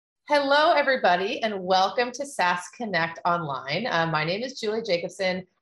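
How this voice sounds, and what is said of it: American accent. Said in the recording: “I'm American, as you might be able to tell from my accent”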